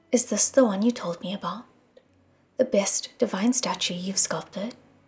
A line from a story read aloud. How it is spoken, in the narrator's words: said softly